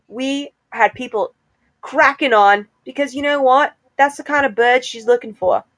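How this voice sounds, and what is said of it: Put-on accent slipping into New York. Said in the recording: “I lost the accent and I went New York.”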